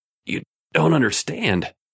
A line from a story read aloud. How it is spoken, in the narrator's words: Raymond gasped